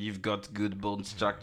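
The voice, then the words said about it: Put-on French accent. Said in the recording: “in a French accent,”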